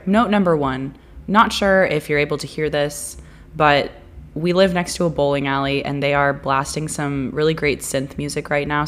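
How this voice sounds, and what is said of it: Raspy, sick-sounding voice. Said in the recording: “I have a little bit of a sore throat situation going on, and so my voice sounds a little raspy ... You sound so sick”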